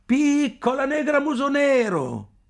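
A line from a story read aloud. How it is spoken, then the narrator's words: Shouted taunt. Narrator (Italian): qualcuno che gridava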